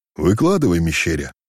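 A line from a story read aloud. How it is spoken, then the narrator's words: Warm, friendly. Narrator (Russian): Ласково окинув казака своим орлинным взором, произнес атаман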